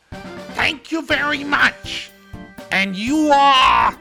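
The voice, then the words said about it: Gilbert Gottfried impression. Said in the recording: “my little Gilbert impression”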